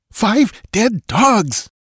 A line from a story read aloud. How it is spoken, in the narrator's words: exclaimed Tecotl, his flaming eyes reflecting a ghastly exultation